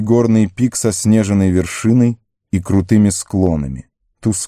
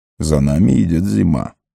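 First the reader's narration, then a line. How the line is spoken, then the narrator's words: Quiet. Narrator (Russian): тихо сказал он Арагорну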